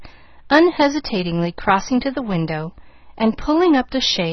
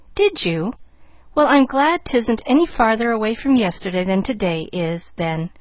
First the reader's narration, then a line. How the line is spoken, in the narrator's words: laughed Pollyanna, cheerily